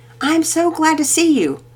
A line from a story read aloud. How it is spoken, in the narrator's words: Mama Peters exclaimed, feeling especially soft toward the boy